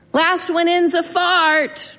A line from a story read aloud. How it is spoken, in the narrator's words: screamed